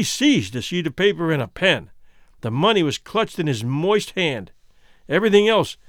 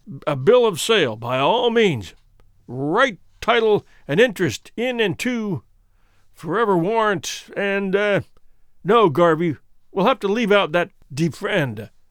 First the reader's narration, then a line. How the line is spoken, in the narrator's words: said Goree with a loud laugh